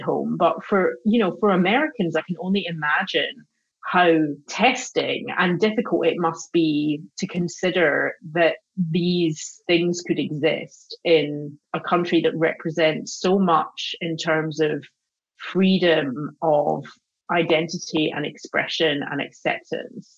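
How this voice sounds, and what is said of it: Scottish accent. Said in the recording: “your accent is better”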